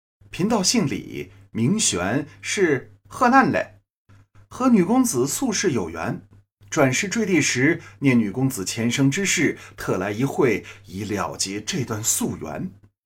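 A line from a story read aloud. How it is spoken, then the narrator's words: Smiling, Taoist priest. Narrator (Chinese): 道人笑着说了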